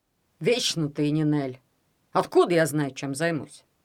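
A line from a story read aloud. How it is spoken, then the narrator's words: Grumbling. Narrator (Russian): пробурчал он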